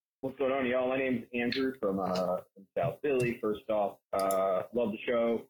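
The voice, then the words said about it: Good, honest-sounding regional accent. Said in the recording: “he has a good, honest sounding accent”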